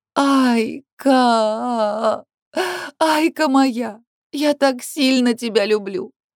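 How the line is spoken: Trembling tearful wailing. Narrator (Russian): Вздрагивая и продолжая меня обнимать, причитает сквозь слезы Алекс

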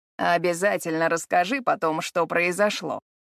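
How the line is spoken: Snorting. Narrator (Russian): фыркнул

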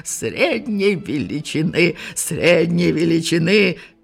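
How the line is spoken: Repeated hoarse shouting. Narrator (Russian): хрипло выкрикивал он

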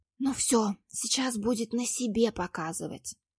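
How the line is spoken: Long exhaled whisper. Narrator (Russian): на длительном выдохе прошептала Маша

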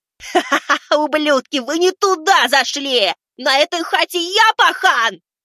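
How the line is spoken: Yelling. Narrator (Russian): парень вопит

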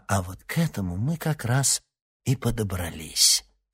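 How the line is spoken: Calm. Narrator (Russian): спокойно произнес оборотень

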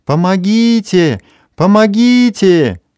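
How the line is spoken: Sudden desperate scream. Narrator (Russian): вдруг истошно закричала

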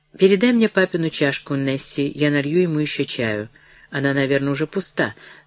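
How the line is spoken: Conciliatory tone. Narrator (Russian): начала миссис Броуди примирительным тоном

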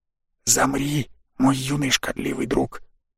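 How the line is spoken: Whisper close to ear. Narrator (Russian): Этот шепот раздался прямо за моим ухом

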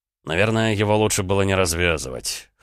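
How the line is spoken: Wry snort. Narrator (Russian): хмыкнул Дмитрий

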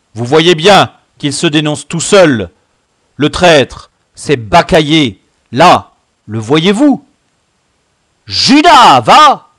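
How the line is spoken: Shouted, deeply agitated. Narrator (French): hurla Gambette, terriblement ému

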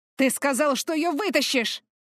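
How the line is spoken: Barking. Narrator (Russian): рявкнул Артес

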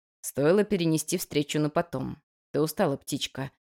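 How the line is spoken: Soft. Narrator (Russian): мягко произнес Абадон

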